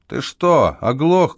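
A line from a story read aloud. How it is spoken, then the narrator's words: Shouted reply. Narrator (Russian): крикнул в ответ Бейкер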